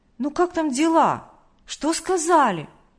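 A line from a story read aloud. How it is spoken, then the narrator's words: Joyful child's question. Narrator (Russian): Младший Тимошка радостно спросил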